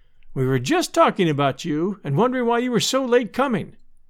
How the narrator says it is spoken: cried Sister Poteet

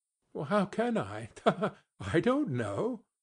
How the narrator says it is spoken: she added in the same breath, laughing as he laughed

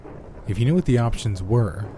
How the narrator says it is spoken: the woman answered calmly

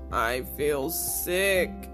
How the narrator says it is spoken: groaned Peg

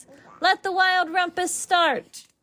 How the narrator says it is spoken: cried Max

